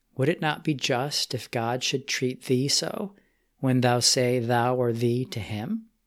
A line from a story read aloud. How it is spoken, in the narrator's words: greatly grieved calmly said